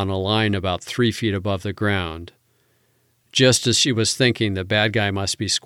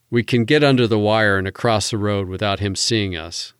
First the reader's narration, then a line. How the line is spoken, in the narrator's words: said Reardon